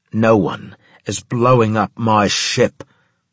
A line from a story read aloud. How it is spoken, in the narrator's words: he boomed